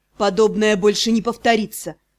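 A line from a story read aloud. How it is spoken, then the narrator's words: Muffled, restrained voice. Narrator (Russian): Глухим, сдержанным голосом произнес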